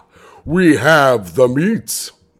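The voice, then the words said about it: Imitates an Arby's commercial voice. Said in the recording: “That was my Arby's impression because my voice is fucked up.”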